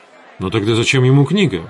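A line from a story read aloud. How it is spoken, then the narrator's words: Exclaiming. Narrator (Russian): воскликнул я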